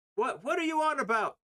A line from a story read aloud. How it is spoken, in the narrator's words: Captain yells